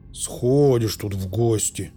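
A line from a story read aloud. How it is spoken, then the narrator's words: Gloomy. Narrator (Russian): мрачно сказал Пауль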